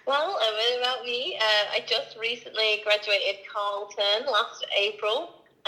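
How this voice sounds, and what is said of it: Slight foreign accent. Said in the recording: “obviously you can tell I have a bit of an accent. I'm an immigrant, clearly... it still lingers around”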